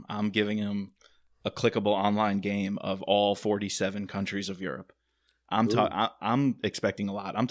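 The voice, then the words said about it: New York accent. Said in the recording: “Your New York accent's really coming out there”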